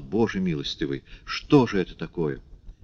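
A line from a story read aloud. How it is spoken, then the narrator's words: Frightened muttering. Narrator (Russian): Испуганная тетушка только бормотала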